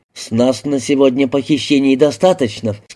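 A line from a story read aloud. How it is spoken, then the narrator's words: Plain. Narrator (Russian): сказал Алин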